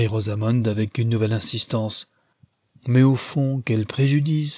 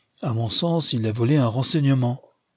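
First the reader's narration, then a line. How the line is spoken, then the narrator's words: Plain. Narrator (French): dit Leonard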